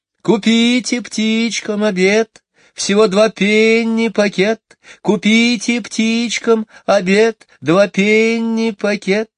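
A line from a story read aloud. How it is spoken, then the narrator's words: Singsong street cry. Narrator (Russian): Нараспев выкрикивала птичница одну и ту же строчку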